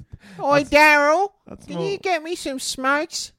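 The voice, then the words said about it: Put-on Australian bogan accent. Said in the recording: “Can you do a bogan accent ... That's a train station accent.”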